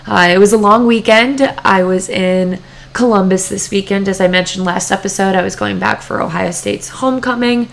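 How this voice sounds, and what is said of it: Rough, hoarse voice. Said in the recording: “my voice is a little rough right now”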